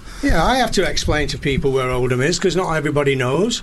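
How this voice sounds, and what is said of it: Northern English accent. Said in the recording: “they couldn't understand my northern accent ... I'm from Oldham. ... Just outside Manchester.”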